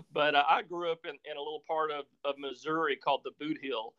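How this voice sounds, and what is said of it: Slight Southern US accent. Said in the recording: “pick up a little bit of the accent that I've actually tried kind of hard to lose ... that big accent comes from, is if you're, you know, very southern Illinois, southeast Missouri, northeast Arkansas, Tennessee, Kentucky”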